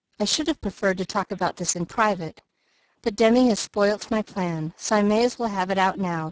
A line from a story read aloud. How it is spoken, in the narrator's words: said Mr